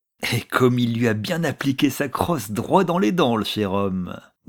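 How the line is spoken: Sneering laugh. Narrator (French): disait en ricanant l'un d'eux

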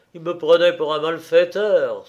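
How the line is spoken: Exclamation. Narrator (French): s'écrie-t-il

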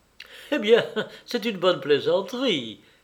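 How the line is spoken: Laughing. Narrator (French): fit en riant Marie-Thérèse

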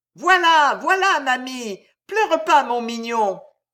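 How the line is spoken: Distant comforting shout. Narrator (French): criait la porteuse de pain, consolant son enfant du fond du couloir

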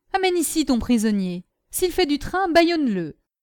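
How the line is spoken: Shouted. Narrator (French): cria-t-il

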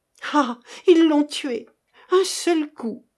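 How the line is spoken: Exclaiming. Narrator (French): s'écria-t-elle

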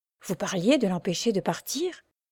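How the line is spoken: Doctor speaking very quietly. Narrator (French): dit tout bas le docteur à Marianne

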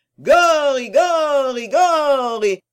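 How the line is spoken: Crowd howling a chant. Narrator (French): hurlaient les gens sur l'air du De Profondis

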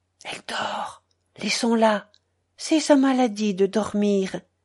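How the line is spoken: Quiet. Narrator (French): Mais Madame Grain, tout bas

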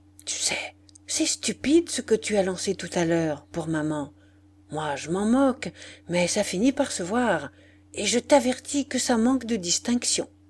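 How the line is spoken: Whispered. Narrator (French): Et il vint dire tout bas

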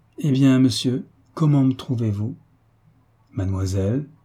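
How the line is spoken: Embarrassed stammering. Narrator (French): balbutia d'abord Olivier, qui était loin de s'attendre à cette brusque et embarrassante question

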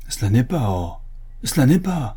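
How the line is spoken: Exclaiming. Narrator (French): s'écria M

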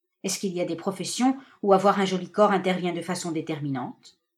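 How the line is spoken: Stammered shamefully. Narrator (French): Elle balbutia honteusement

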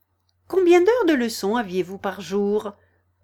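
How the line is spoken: Quick, changing subject. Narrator (French): dit Alice vivement pour changer la conversation

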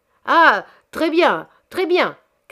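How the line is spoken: Shouted. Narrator (French): cria à son tour Monsieur Chabre

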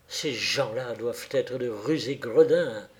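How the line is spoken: Exclaimed. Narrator (French): s'écria-t-il

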